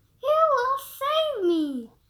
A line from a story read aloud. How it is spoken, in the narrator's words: cried the pretty princess again